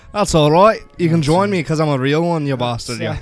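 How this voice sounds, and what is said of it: Fake put-on accent. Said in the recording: “fake accents”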